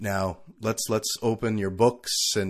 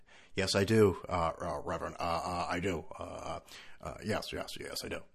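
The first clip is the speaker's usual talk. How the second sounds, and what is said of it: Bad Don Imus impression. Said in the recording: “terrible Don Imus impression”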